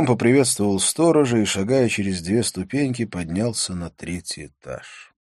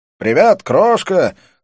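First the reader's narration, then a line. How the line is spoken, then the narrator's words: Shout, exaggerated American accent. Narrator (Russian): крикнул я с утрированным американским акцентом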